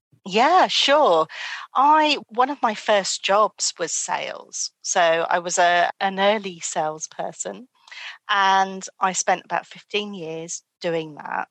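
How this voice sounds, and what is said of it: British accent. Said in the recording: “she's got an accent. She's from the UK.”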